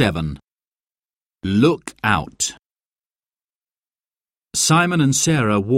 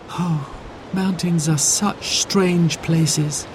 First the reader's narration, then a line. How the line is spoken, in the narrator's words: sighed Sarah